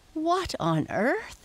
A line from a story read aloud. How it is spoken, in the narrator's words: Henry laughed a little